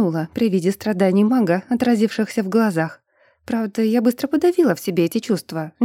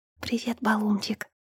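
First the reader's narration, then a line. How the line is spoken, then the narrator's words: Whisper. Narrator (Russian): прошептала я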